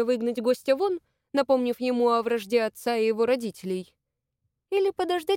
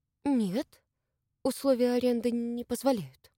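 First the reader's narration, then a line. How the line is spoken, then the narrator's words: Confused, bewildered. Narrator (Russian): растерянно проговорила Маша, еще не понимая, что ей делать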